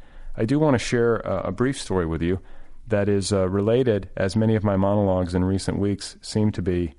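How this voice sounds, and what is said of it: Tired, fatigued voice. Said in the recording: “I don't know if you can detect fatigue in my voice, but uh, I am sleep deprived.”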